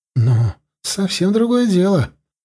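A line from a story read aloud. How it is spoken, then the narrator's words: Relieved exhale, boy. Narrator (Russian): облегченно выдохнул злой мальчуган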